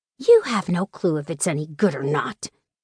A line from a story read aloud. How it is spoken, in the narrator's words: snorted